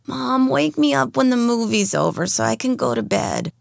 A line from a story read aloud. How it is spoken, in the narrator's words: mumbled Yoli